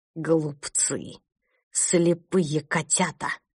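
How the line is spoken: Hissing in the dark. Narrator (Russian): прошипел его голос в темноте коридора

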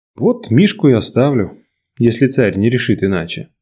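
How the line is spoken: Sigh. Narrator (Russian): вздохнул Николай

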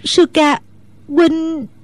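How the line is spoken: Tearful, choked voice. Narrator (Vietnamese): Nước mắt Mẫn Nhu trào ra như mưa, nàng nghẹn ngào nói

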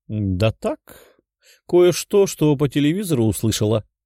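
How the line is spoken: Sly giggling. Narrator (Russian): хихикнув, ответила хитрая женщина

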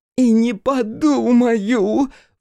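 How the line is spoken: Howling woman. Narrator (Russian): взвыла она

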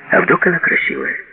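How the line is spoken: Calm. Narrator (Russian): спокойно сказала Джина

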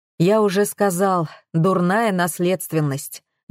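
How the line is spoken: Gloomy summing up. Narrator (Russian): мрачно подвел итог Геннадий Сергеевич

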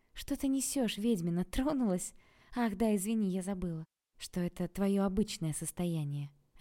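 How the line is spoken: Plain. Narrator (Russian): ответила Окладникова

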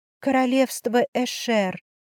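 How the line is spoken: Distracted mutter. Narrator (Russian): пробормотала я, все еще пытаясь собраться с мыслями

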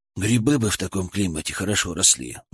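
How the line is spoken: Sighed. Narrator (Russian): вздохнул Федор

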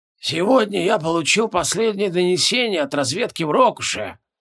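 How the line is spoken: Slightly husky. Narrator (Russian): с легкой хрипотцой произнес Регелион

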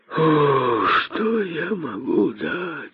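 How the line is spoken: Sighing. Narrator (Russian): вздохнул косой

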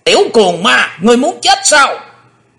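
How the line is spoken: Sudden shout. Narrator (Vietnamese): lão quái ngư bất chợt đã quát lên

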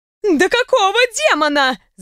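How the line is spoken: Yelling. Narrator (Russian): заорала Льяра Балаи

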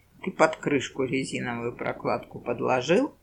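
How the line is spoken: Low-voiced question. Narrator (Russian): вполголоса спросил Куропяткин

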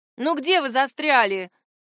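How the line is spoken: Displeased exclamation. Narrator (Russian): недовольно воскликнула Найла

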